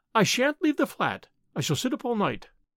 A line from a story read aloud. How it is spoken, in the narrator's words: Moved by a sudden impulse, the girl said quickly